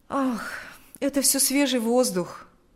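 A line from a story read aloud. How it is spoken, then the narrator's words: Sighing reply. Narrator (Russian): ответил Павел, вздохнув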